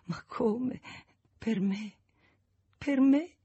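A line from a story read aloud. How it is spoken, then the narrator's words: Repeating through sobs. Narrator (Italian): ripeteva fra i singhiozzi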